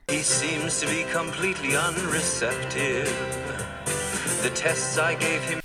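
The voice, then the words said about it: Proper English accent. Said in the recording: “did you hear the English accent in there? The doctor is very proper.”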